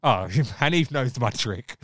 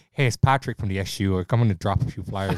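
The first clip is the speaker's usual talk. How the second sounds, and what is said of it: Poor put-on Irish accent. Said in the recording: “the Irish accent is so warm and welcoming ... When I put an Irish accent on, even though it was really poor”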